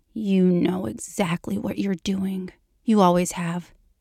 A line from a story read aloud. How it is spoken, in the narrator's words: he accuses her, his tone carrying an edge of anger that is carefully curated